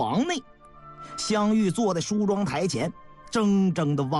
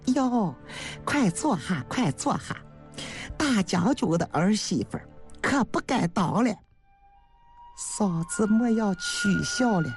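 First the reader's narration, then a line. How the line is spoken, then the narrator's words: Smiling. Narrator (Chinese): 刘氏笑着说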